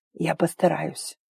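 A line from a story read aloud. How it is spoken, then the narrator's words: Rasped hoarsely. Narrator (Russian): прохрипел он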